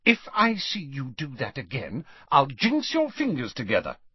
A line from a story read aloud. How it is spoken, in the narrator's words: she said sharply